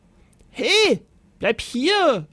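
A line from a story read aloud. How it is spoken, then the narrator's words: Bellowed after someone. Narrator (German): brüllte der Ritter ihm nach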